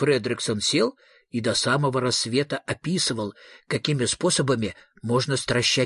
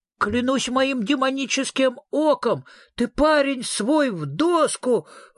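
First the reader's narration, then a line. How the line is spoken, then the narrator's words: Ghost exclaiming. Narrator (Russian): воскликнуло привидение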